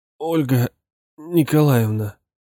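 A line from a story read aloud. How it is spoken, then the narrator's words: Weak calling voice. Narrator (Russian): позвал слабым голосом Инюшкин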